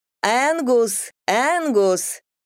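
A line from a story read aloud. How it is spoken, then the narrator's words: Loud shout. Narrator (Russian): громко крикнула она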